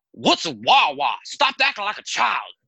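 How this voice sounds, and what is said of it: Put-on Southern accent, deep voice. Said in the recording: “his Southern accent ... that Big Daddy voice”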